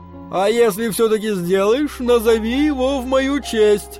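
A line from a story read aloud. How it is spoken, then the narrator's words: Shouted from back seat. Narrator (Russian): крикнул Кушман с заднего сиденья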